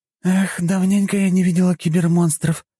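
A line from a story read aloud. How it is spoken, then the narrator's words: Sighing. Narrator (Russian): вздохнула Дункан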